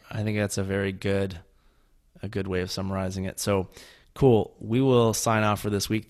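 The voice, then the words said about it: Rough, sick-sounding voice. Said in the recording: “my voice is crap. I'm very sick right now”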